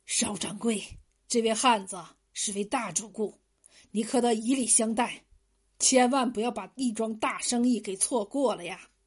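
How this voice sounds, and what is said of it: Quiet, hushed speech. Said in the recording (Chinese): “伏在邵掌柜的耳边，小声说道”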